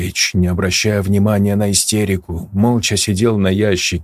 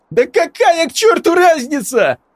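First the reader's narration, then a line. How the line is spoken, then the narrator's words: Shriek. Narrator (Russian): взвизгнул Игорь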